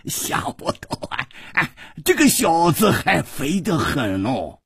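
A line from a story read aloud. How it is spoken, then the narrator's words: Laughing. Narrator (Chinese): 老严大笑着说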